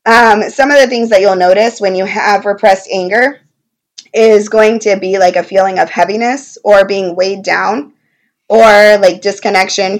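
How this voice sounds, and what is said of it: Hoarse, strained voice. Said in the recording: “sorry, my voice. I have a little bit of laryngitis this week, so I'm trying to keep my voice as long as possible.”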